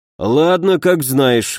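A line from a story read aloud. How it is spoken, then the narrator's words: Sigh. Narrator (Russian): вздохнул Ламар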